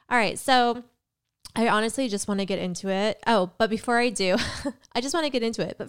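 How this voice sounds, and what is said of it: Sick-sounding voice with cough. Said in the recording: “if I sound a little sick. I have a cold. ... not a cold, but a cough. So if my voice seems off”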